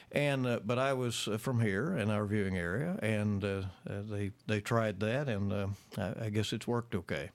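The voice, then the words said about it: Strong regional accent. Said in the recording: “everybody knows that accent, and it's pretty strong ... regional dialect”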